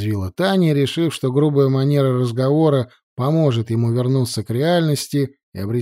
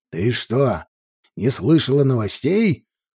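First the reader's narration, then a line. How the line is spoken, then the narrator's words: Growl. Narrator (Russian): прорычал Гарри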